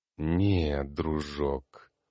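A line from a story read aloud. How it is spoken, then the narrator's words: Angry growl. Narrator (Russian): Зло рыкнул маг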